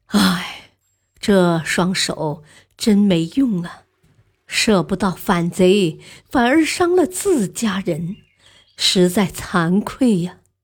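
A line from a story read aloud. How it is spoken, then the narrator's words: Sighing. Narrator (Chinese): 叹息一声，说道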